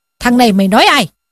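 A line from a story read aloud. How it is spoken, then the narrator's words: Furious shout. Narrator (Vietnamese): Võ Hành Giả sốt tiết lên, quát lên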